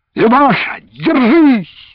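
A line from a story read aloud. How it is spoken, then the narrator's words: Frightened shout. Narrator (Russian): закричал Андрей, испугавшись, что ее выбросит за борт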